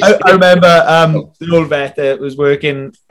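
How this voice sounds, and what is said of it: Usual voice. Nothing is said of it.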